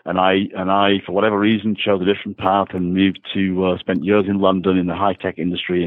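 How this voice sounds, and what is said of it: Northwest English accent. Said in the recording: “grew up in a very small town in the northwest of England ... as you can hear, the accent hasn't left me.”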